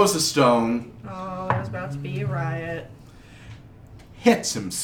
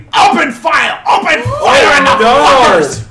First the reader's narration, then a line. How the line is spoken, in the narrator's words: Pastor all of a sudden starts screaming